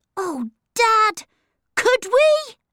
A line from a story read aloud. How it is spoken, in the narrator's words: cried Peter